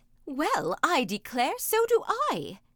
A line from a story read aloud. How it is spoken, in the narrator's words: exclaimed the ogre's wife